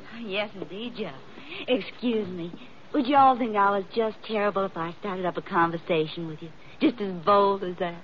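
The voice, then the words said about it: Kentucky Southern American accent. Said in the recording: “you're making fun of my accent. I'm from Kentucky. The horse country.”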